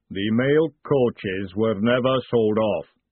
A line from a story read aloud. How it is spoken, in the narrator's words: the golem rumbled